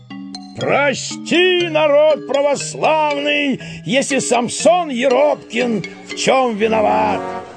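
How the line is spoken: Loud booming shout. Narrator (Russian): зычно крикнул

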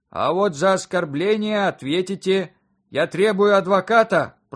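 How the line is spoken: Booming from a pipe. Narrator (Russian): прогудело из трубы

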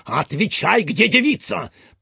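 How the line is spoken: Sharp shout. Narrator (Russian): прикрикнул на служивого Фондорин

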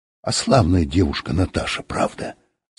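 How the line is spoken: Whispered. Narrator (Russian): сказал кто-то шепотом

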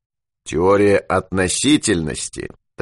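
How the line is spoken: Solemn opening. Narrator (Russian): торжественно начал Юрковский

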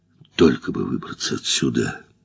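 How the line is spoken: Muttered. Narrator (Russian): Наконец пробормотал этот странный человек

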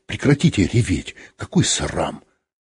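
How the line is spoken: Frightened yet menacing. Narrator (Russian): испуганно оглянулся на люк и грозно сказал

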